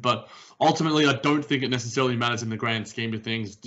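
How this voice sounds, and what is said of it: Noticeable accent, takes time to process. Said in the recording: “you got to keep up with the accent sometimes. Sometimes people take a little while to process it all.”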